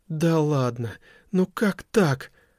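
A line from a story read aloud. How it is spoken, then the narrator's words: Despairing exclamation. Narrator (Russian): в отчаянии воскликнула Лени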